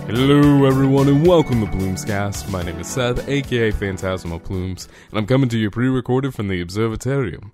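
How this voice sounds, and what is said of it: Slightly sick, phlegmy voice. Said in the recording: “as you can tell in my voice, I still have a little bit of the ick with me ... a little bit of phlegm here and there”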